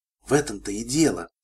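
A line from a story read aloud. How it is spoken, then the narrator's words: Whisper. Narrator (Russian): шепнула Кросс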